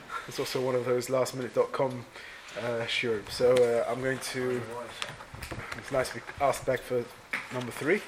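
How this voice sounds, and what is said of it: Slightly congested, unclear voice. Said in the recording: “I have a bit of a cold, so apologies if my voice isn't so clear.”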